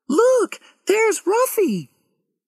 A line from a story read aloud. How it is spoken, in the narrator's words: Suddenly, Lauren cried